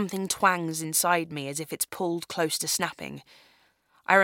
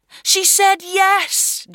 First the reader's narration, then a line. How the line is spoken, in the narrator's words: Justin yells